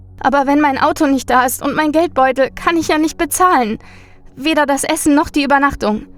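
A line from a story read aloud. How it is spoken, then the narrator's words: Sniffling whimper. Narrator (German): Sie schniefte noch einmal und wimmerte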